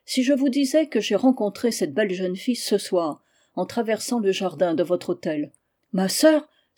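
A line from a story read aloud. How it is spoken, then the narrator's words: Exclaimed. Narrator (French): s'écria la marquise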